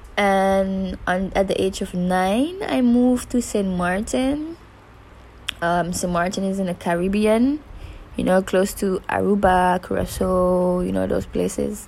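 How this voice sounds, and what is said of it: Slight Caribbean accent in English. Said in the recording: “that little accent in my English ... When I speak English, this little accent just pops up ... Caribbean girl”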